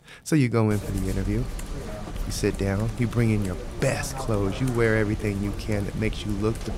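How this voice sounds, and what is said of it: Usual voice. Nothing is said of it.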